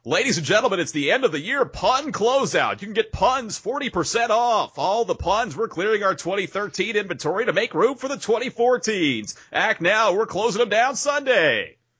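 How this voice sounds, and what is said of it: Announcer voice. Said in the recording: “the proper voice ... That's excellent announcer voice. ... I am professionally trained.”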